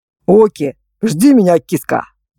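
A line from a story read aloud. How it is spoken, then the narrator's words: Smirking. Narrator (Russian): хмыкнул он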